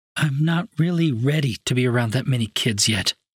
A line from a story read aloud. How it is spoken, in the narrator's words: she replied